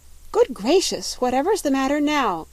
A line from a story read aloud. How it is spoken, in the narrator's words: cried Dorothy